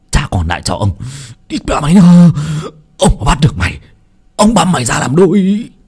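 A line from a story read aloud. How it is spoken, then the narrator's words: Wailing, crying shout. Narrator (Vietnamese): lão Toàn Béo gào khóc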